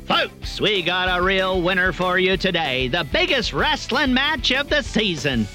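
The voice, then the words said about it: Booming sports announcer voice. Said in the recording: “I need to get my announcer voice going”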